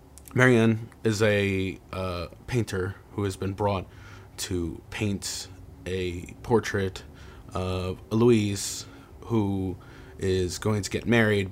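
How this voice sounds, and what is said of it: Southern Baltimore accent. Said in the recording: “my indiscriminately southern Baltimore accent, which makes me swallow all over O's and stuff”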